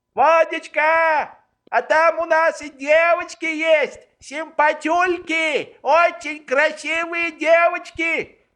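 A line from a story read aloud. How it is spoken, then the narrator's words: Yelling. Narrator (Russian): вопил Швейк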